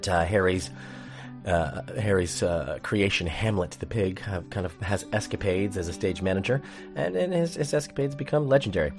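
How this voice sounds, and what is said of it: Hoarse voice from laryngitis. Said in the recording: “laryngitis. I still have it. Getting over it for the last, nearly 2 weeks... I apologize for my voice.”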